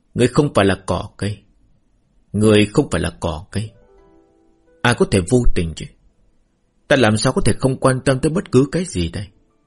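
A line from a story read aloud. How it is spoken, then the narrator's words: Sighing. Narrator (Vietnamese): Trúc Duy Ngã thở dài một cái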